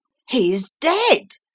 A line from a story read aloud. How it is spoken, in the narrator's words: cried several voices